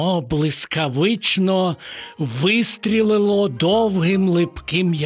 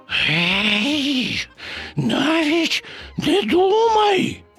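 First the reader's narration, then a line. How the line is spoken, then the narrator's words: Hissing. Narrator (Ukrainian): зашипів Боня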